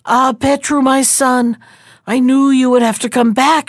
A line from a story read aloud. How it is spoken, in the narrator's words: she cried